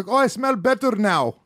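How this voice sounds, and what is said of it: Put-on Hasidic Jewish accent. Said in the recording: “What accent was that? ... Hasidic. ... It's my Hasidic accent, yes. ... It's Middle Eastern. ... that's a fucking actual accurate Hasidic.”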